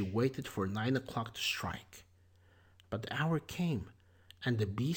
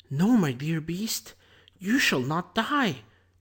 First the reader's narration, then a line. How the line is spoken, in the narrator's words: exclaimed Beauty